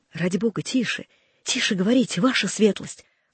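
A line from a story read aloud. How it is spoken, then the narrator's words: Urgent whisper. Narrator (Russian): прошептал Багратион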